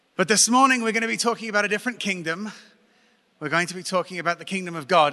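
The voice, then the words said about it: English accent from Brighton. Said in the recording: “as you can tell from my accent, I was not raised here ... Brighton, England”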